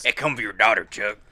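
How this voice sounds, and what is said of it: Impression of Beetlejuice. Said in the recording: “See, that's a good impression. Beetlejuice”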